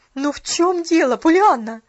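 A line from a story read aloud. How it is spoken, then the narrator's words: Desperate exclamation. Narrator (Russian): в отчаянии воскликнула миссис Керри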